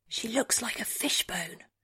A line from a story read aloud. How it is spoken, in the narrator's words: Rabia whispers